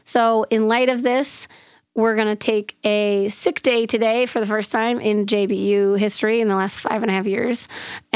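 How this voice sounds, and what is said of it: Hoarse, nearly lost voice. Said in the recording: “Obviously, you can probably tell that I have lost my voice. ... This is the best I've sounded.”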